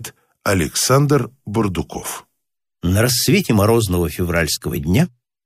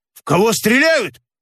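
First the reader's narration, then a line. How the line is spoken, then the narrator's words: Shouting. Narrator (Russian): закричал Никита Псов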